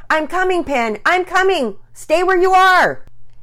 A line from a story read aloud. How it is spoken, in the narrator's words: Daddy Peters yelling